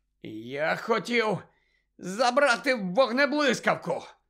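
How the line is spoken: Hoarse rasp. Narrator (Ukrainian): прохрипів

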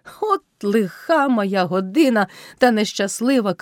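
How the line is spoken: Shout. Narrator (Ukrainian): крикнув Кайдаш

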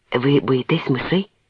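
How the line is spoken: Plain. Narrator (Ukrainian): запитав я

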